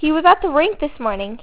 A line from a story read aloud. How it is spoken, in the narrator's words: he exclaimed